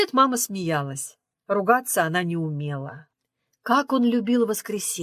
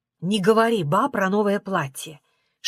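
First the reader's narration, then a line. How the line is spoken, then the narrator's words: Whisper. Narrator (Russian): шептала мама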